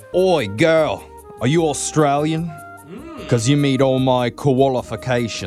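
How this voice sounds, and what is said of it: Bad fake Australian accent. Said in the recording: “I have a really bad Australian accent right now... his fake accent's dreamy”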